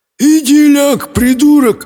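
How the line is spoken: Sleepy mumble. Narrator (Russian): сонно промычал кальцифер

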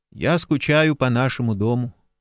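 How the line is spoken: Gloomy. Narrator (Russian): мрачно сказал Джейсон

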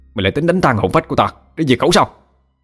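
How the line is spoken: Roar. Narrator (Vietnamese): Nhân gầm lên

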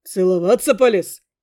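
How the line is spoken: Young man's snort. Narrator (Russian): хмыкнул парень

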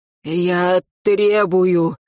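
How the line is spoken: Hoarse man. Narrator (Russian): хрипло сказал он

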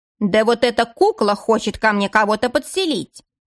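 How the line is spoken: Old woman thundering. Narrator (Russian): прогремела старуха

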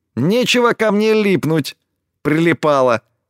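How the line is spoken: Squeaking. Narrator (Russian): Пискнула она

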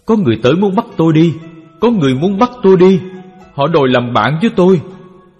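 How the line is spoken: Trembling, terrified screaming. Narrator (Vietnamese): ông thường run rẩy kêu thét hoảng sợ

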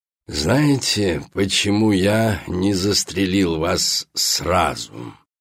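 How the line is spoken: Creaky old man's question. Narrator (Russian): спрашивает своим скрипучим, как песок склепа, старческим голосом

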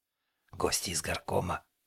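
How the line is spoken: Whispered announcement. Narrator (Russian): шепотом оповестил Борис

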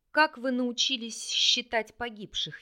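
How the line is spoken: Sarcastic hiss. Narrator (Russian): язвительно прошипел Рарик

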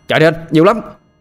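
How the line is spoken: Alarmed shout. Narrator (Vietnamese): Tôi thấy không ổn, liền hét lên

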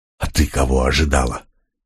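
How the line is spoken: Nervous hiss. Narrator (Russian): нервно прошипел Млок

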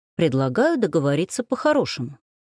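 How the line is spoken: Calm statement. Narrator (Russian): спокойно заявил он

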